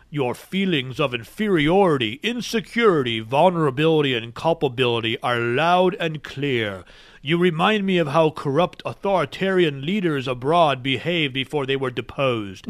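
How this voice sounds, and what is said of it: Deep Darth Vader-style voice. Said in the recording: “This sounds like a movie line that Darth Vader would read ... I'm going to read it to you in a Darth Vader voice.”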